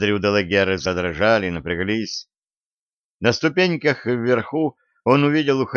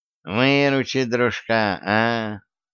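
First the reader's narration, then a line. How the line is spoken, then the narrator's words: Nasal twanging voice. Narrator (Russian): Гнусавый голос как зазвеневшая струна банджо, сказал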